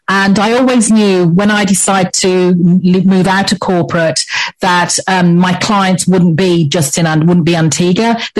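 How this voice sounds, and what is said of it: English accent. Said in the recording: “As you can probably tell by my accent, I'm English, so I'm English born”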